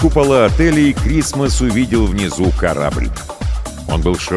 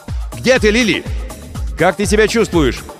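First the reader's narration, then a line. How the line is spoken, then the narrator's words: Shouting into distance. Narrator (Russian): закричал в направлении корабля Крисмас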